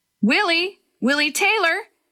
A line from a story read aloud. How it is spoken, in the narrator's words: Several voices were shouting Willie's name